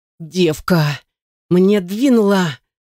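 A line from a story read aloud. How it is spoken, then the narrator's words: Whining. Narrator (Russian): раскулил гаденыш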